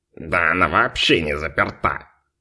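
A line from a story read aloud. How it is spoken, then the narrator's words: Offended snort. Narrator (Russian): Обиженно хмыкнул Фунтик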